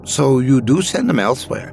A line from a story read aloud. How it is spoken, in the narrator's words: Ben said excitedly